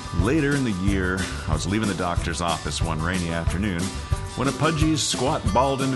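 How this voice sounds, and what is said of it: Usual voice. Nothing is said of it.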